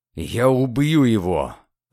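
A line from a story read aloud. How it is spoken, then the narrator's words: Growled. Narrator (Russian): Прорычал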